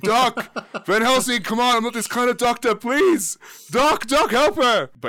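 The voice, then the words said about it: Yelling. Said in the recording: “I'm yelling,”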